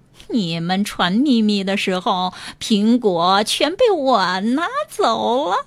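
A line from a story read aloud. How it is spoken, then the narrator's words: Hearty laughter. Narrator (Chinese): 狐狸忍不住哈哈大笑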